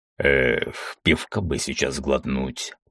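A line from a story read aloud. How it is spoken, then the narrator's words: Grumbling. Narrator (Russian): проворчал он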